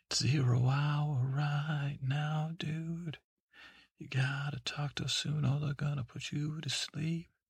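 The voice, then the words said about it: Whispering. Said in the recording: “I'm whispering to you like I was your wife.”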